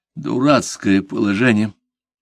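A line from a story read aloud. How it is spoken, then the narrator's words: Doomed, forced out. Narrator (Russian): Обреченным тоном выдавил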